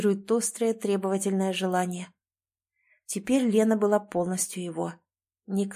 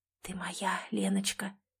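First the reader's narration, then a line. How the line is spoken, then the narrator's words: Passionate whisper. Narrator (Russian): прошептал, чувствуя, как внутри него вспыхивает последнее непреодолимое желание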